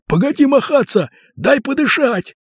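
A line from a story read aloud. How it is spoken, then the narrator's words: Several voices shouting. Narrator (Russian): на него закричали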